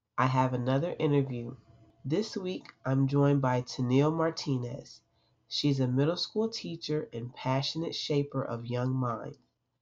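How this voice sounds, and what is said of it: Congested, stuffy-nosed voice. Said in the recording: “As you can hear in my voice, I'm a little congested”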